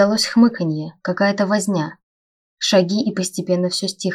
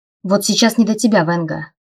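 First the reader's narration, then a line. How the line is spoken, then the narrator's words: Snappish retort. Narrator (Russian): огрызнулся Райнер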